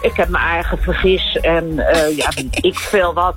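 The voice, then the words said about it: Broad Bodegraven Dutch dialect. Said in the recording (Dutch): “ik kom uit Bodegraven... plat praten vooral”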